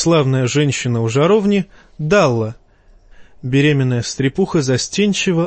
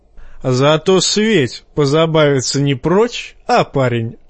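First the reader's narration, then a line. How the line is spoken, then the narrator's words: Chuckling. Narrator (Russian): хохотнул Тормунд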